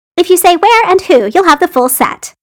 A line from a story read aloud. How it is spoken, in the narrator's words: Lena said with a giggle